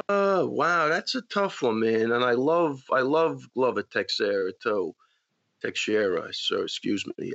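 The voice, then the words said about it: Long Island accent. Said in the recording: “My Long Island accent.”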